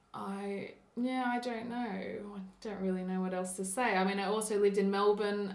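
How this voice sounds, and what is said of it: Soft Australian accent, sounds English. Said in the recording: “my accent isn't typical of an Australian accent. In Australia, I often get asked what part of England I'm from ... the accent in Canberra is a bit softer ... the voice training through all the acting has changed my voice”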